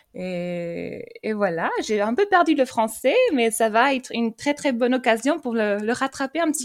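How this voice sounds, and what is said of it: French with a slight foreign accent. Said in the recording (French): “C'est tellement charmant ce, petit accent”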